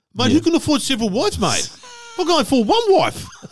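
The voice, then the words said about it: Generic put-on accent. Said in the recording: “You've gone for a generic accent there, which I like.”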